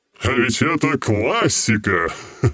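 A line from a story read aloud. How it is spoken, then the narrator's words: Laughing. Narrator (Russian): Рассмеялся тень-король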